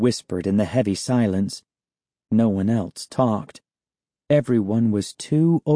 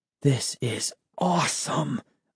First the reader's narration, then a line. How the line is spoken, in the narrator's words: whispered